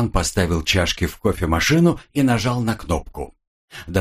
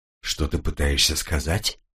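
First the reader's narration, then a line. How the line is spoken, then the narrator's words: Quiet question. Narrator (Russian): тихим голосом спросил Илан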